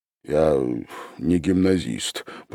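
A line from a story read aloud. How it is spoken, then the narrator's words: Mutter. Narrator (Russian): пробормотал он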